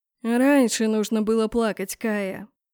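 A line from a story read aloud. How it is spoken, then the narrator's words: Weary. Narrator (Russian): как-то устало сказал магистр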